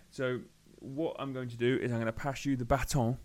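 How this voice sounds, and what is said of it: Slight put-on French twang. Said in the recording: “You put a little bit of a French twang on that as well ... with that inflection to it”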